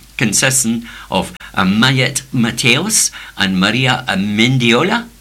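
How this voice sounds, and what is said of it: Put-on Spanish accent on names. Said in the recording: “You like my accent? Very good, huh?”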